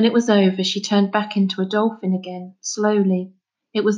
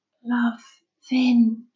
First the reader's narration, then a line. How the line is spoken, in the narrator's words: whispered